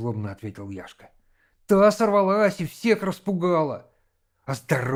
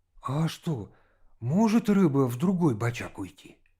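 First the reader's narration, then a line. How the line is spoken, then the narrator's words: Uncertain question. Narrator (Russian): Володя неуверенно спросил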